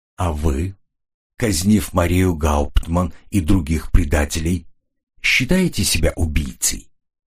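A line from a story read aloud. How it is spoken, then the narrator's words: Quiet question. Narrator (Russian): тихо спросил Ренли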